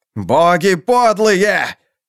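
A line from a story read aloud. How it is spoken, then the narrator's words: Shouting. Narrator (Russian): кричал Кафал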